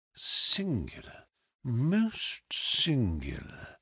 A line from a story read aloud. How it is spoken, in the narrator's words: he murmured